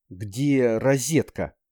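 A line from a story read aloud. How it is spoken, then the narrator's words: Strained, choked voice. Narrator (Russian): он бросил сдавленным голосом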